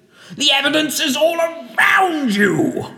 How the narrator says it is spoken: shouted Mr

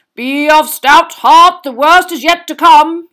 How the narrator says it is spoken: yelled the knight

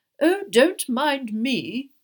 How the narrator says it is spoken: the fat lady called irritably after them

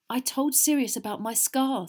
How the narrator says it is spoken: said Harry

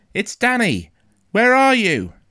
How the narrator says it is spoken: I shouted

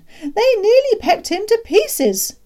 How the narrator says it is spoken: was crying

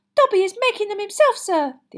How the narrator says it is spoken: the elf said happily

